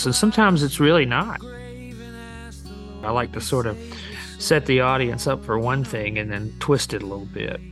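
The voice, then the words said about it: Southern American accent. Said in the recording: “a middle-aged white guy with a Southern accent”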